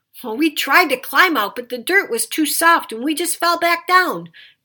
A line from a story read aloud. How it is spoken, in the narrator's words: Packy shouted up